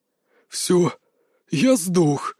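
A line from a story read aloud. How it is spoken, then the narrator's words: Breathless exhale. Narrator (Russian): выдохнул Терри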